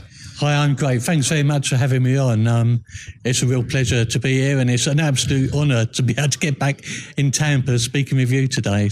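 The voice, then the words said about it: British accent. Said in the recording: “we're hearing your accent. We know you're from the UK.”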